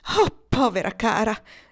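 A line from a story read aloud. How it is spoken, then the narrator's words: Compassionate exclamation. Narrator (Italian): esclamò la signora Arbuthnot con un impeto di sincera compassione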